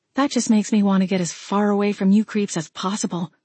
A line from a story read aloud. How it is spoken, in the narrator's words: breathed